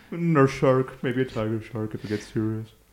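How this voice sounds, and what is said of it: Hoity-toity, disengaged weatherman voice. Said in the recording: “my weather person impression ... He's very, very hoity-toity ... He doesn't really care about his job ... The unengaged weatherman”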